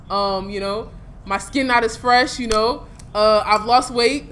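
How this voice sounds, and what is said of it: American accent with local influence. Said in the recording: “now my accent is just, there's some locality, like, that's entered inside my Yankee accent.”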